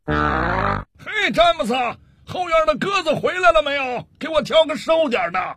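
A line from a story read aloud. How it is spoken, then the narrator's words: Impatient shout. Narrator (Chinese): 工作人员很不耐烦地回头冲里屋喊了一声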